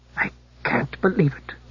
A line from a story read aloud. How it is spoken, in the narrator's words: murmured the Geg without turning